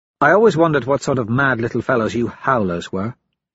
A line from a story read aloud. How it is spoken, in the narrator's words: Mustang says